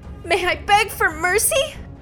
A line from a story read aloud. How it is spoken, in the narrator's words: pleaded